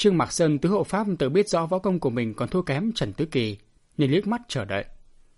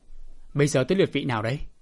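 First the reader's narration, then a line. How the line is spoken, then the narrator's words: Cold laugh, dark question. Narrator (Vietnamese): Bạch Thiếu Hồng cười nhạt một cái, âm trầm hỏi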